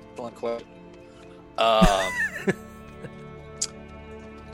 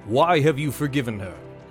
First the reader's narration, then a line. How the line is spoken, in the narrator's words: he, in a booming voice, he says